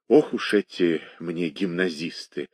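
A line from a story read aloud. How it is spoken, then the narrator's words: Undertone. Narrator (Russian): говорила она вполголоса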